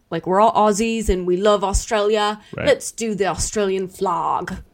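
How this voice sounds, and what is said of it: Weak attempt at Australian accent. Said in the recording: “I can't do an Australian accent at all. I started it good.”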